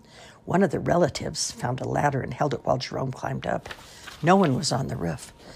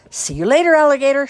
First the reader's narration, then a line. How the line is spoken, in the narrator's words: shouted the Gatorman kids